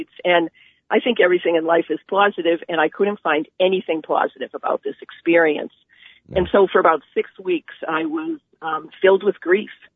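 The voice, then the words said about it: Boston accent. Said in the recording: “I'm from Boston, it's a Boston accent.”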